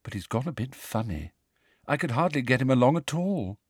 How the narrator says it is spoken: said Luna sadly

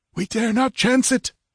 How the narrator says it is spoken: he panted

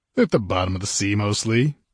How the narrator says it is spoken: he replied cheerfully

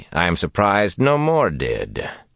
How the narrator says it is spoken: said dryly

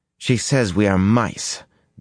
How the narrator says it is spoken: Beslin said bitterly

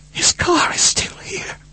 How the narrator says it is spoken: she whispered

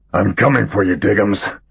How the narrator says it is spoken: he muttered

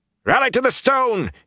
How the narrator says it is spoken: shouted as he leaped

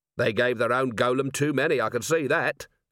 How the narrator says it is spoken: said Vimes

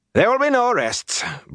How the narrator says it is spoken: Bran said sharply

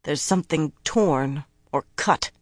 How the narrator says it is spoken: Nynaeve muttered

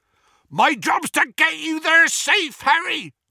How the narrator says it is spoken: bellowed Hagrid

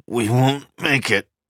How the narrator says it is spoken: he grunted

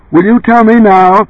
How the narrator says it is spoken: Joe yelled

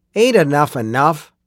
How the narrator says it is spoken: the man with the old wrist clock grumbled

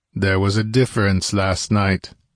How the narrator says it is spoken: growled Conan

